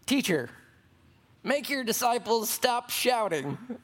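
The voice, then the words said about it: Deliberately annoying whiny voice. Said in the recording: “That was my most annoying voice.”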